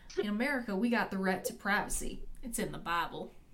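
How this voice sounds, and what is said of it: Put-on Southern US accent. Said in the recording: “I feel this has to be said in a Southern accent.”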